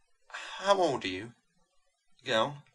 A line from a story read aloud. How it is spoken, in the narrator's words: She said faintly